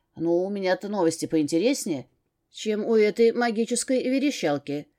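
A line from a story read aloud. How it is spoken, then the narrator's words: Snorting assistant. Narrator (Russian): хмыкнул помощник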